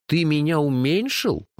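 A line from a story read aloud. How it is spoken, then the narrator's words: Indignant howl. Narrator (Russian): возмущенно взвыл я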